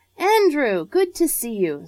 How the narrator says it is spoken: voice boomed out cheerfully through the morning air

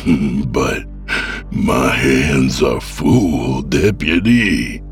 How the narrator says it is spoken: he croaked

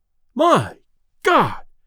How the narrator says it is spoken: exclaimed Delaney as he fell back

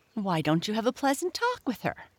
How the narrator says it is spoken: Chirpy Cricket suggested

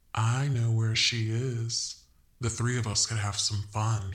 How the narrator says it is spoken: he purred

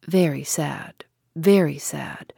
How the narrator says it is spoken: murmured Dr

